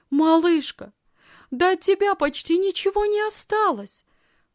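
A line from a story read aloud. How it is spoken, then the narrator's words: Excited female exclamation. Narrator (Russian): взволнованно воскликнула она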